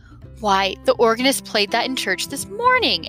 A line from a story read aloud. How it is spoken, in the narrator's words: exclaimed the music teacher breathlessly